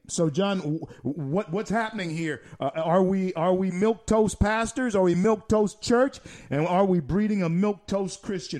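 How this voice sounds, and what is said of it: Powerful, resonant radio voice. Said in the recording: “you have a beautiful, really powerful resonant radio voice.”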